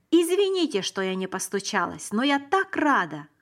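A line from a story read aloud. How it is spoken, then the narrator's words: Exclaimed. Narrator (Russian): воскликнула она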